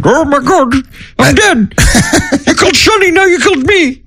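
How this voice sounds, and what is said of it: Cartoonish angry imitation of another person. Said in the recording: “your Cher impression is not far off from the Pillsbury Doughboy if he was angry ... I sound like the gingerbread man in Shrek.”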